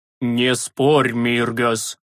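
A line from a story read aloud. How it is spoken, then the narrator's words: Hoarse rasp. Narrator (Russian): просипел отец Флатис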